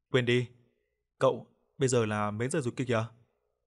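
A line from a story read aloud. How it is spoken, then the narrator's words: Casual, laughing. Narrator (Vietnamese): Hùng khôi phục thái độ bình thường, bật cười, mà nói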